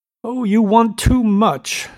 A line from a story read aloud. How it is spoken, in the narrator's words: she cried to Gatsby